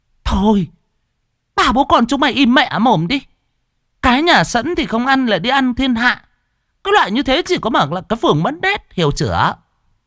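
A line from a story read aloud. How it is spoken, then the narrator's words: Woman shouting. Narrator (Vietnamese): mụ mà hét lên một cái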